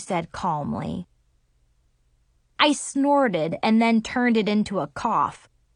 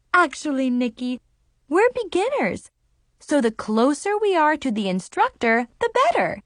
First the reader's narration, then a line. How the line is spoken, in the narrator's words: Mom said cheerfully